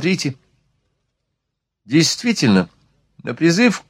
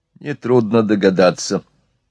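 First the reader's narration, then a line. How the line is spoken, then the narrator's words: Sad. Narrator (Russian): печально ответил Жулеваль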